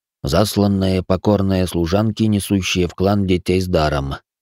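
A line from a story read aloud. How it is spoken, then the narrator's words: Snorting smirk. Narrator (Russian): хмыкнул маг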